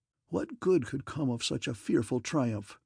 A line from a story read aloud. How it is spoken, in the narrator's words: whispered the grim Saturnian